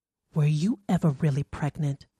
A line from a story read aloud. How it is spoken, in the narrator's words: she whispered